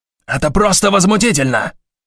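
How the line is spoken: Shouting. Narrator (Russian): заорал Шандлер

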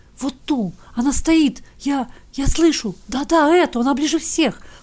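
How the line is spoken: Soundless whisper. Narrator (Russian): прошептал он, или, вернее, беззвучно пошевелил языком

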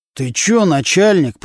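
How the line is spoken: Through gritted teeth. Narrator (Russian): процедил сквозь зубы Нечипаренко

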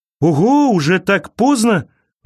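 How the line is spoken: Exclamation. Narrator (Russian): воскликнул он

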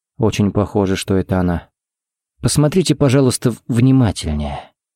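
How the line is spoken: Gentle request. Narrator (Russian): попросил Харри мягко

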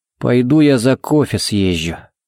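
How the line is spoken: Grunted. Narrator (Russian): буркнул он

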